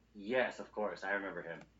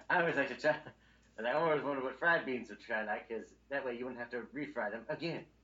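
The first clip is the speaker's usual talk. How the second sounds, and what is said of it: Mitch Hedberg-style ant voice. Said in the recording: “See, that sounds just like the ant.”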